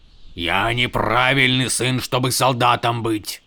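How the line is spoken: Stubborn grumble. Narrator (Russian): упрямо проворчал камень

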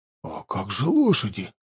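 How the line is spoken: Confused question. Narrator (Russian): растерянно спросил маг воздуха

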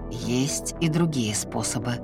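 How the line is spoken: Deep-voiced reminder. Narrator (Russian): глубоким голосом напомнил он

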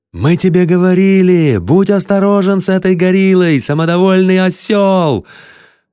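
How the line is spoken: Crowd of fans yelling. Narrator (Russian): Его болельщики орали

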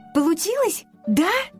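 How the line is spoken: Excited question. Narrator (Russian): взволнованно спросила она

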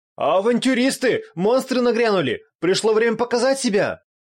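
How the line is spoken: Shouting coachman. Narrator (Russian): крикнул один из извозчиков

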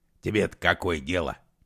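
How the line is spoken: Scoffing grunt. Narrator (Russian): хмыкнул он

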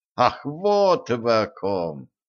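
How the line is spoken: Cheerful laughing. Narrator (Russian): Ганс и весело рассмеялся

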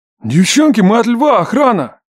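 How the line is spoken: Relieved bark from outside. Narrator (Russian): Облегченно гаркнули снаружи

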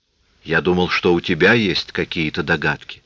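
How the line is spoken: Plain. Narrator (Russian): ответил Тат

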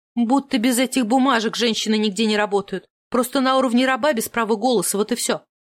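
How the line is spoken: Snapping retort. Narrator (Russian): огрызнулась в ответ

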